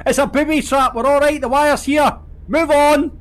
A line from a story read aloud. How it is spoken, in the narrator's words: I walked around 50 yards behind the car and yelled back